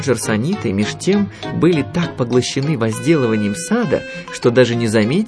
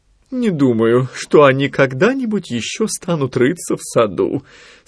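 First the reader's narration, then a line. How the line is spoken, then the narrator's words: Sleepy mumble. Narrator (Russian): сонно бормотала Нани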